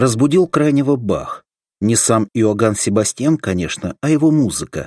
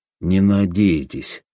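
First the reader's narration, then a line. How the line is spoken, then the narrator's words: Gloomy. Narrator (Russian): мрачно сказал Крайнев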